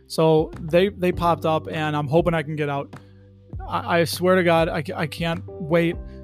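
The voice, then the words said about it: Hoarse, strained voice. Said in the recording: “I'm losing my voice here.”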